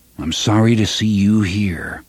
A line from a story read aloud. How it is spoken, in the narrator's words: Roland said gravely